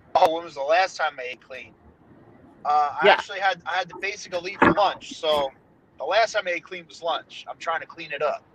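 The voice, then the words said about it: New Jersey accent. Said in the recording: “that Jersey accent sounds so refreshing”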